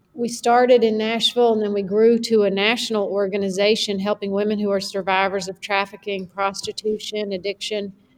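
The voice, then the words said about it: Tennessee Southern accent. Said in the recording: “as you can hear from my voice, from Tennessee.”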